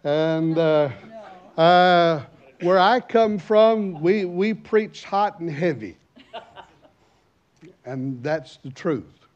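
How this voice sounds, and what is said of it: American accent. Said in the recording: “As you know, by my accent, I'm an American.”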